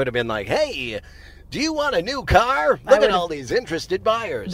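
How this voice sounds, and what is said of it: Usual voice. Nothing is said of it.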